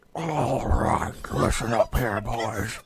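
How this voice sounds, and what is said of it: Quiet whispered impression of a president. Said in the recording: “presidential ASMR”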